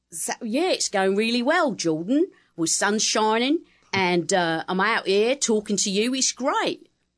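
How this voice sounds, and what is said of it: Cockney accent. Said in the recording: “what would Cockney sound like”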